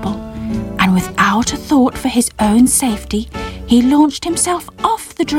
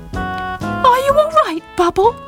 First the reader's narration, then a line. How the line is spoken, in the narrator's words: Squeak asked anxiously